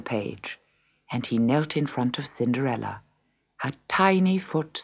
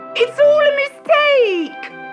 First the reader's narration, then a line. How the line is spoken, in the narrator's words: cried Gertrude